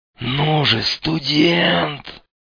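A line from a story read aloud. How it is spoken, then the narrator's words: Hoarse wheeze. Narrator (Russian): прохрипел малек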